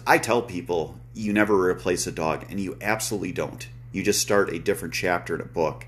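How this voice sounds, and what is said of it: Choked-up, emotional voice. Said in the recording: “getting choked up”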